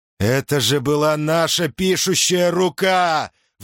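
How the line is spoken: Roaring. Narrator (Russian): взревел он

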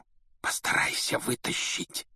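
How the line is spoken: Whisper. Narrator (Russian): шепнул Рон

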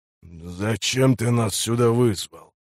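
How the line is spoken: Hoarse, heavy, grinding voice. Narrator (Russian): Голосом этого храмовника можно было молоть зерно, хриплый и тяжелый

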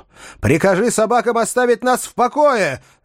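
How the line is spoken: Yell. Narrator (Russian): заорал я

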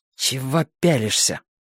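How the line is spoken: Angry hiss. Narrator (Russian): зло шипела

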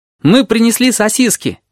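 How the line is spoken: Cheerful start, then faltering. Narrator (Russian): весело начал горбач и запнулся

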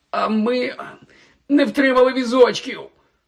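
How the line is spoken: Pained groan. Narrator (Ukrainian): Простогнав, підводячись, Гаррі

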